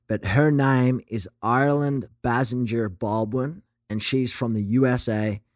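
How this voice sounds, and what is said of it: Attempted American accent. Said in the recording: “I'm going to try this in American accent and see if it works.”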